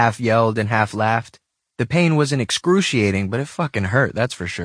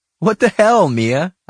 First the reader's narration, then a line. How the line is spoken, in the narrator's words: I said, laughing despite the pain